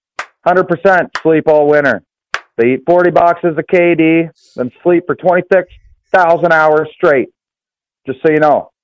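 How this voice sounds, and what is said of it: Strong Canadian accent. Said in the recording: “That is the most Canadian accent. ... If you ever wondered what a Canadian accent is, that's it.”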